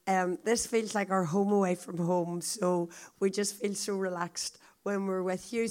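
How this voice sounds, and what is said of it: Very croaky voice, accented. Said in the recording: “I hope you'll get used to the accent, but it's especially hard for you because I've also got a very croaky voice. I don't normally sound like this”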